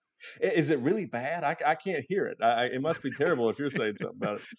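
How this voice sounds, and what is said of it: Southern US accent. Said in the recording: “it's pretty obvious you are from the South. Like I, you have the awesome Southern accent”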